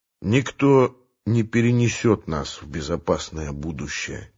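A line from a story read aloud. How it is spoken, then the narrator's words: Quiet. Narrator (Russian): тихо сказал он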